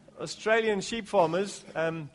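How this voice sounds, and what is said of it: Poor put-on Australian accent. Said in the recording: “that's my worst attempt at an Australian accent.”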